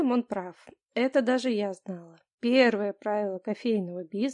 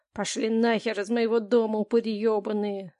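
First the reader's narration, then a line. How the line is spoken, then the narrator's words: Husband hissing through teeth. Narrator (Russian): Сквозь зубы процедил мой муж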